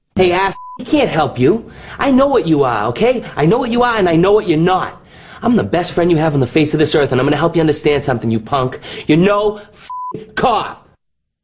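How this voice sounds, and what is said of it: Boston accent, Mark Wahlberg. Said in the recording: “This is a Boston accent. This is from the movie The Departed. ... This is Mark Wahlberg.”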